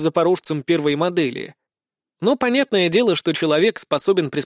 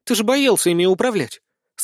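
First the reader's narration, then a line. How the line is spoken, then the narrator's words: Puzzled joyful exclamation. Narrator (Russian): с какой-то недоумевающей радостью воскликнула та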